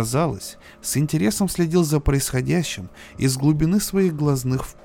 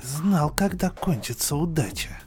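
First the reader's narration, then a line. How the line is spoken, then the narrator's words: Envious admiring mutter. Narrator (Russian): с завистливым восхищением пробормотал другой большой гриб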